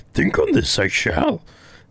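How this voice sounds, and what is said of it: Yoda impression. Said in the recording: “It's always so hard doing that voice. ... Yoda lines”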